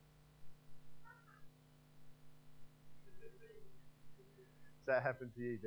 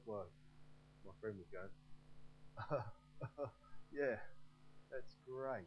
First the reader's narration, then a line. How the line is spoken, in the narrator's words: Very awkward, because he'd be dissolving into fits of laughter, and you'd be going